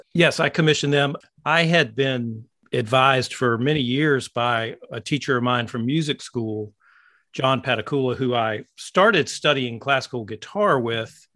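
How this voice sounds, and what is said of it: American East Coast accent. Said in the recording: “You've got a very East Coast accent, actually.”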